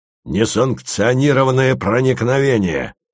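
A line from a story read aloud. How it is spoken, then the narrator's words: Thunderous bark. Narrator (Russian): рявкнул он громовым голосом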